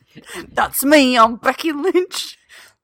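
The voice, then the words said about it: Bad put-on Irish accent. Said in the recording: “Worst Irish accent.”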